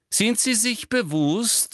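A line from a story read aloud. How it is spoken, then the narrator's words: Loud interruption. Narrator (German): unterbrach ihn Umbridge laut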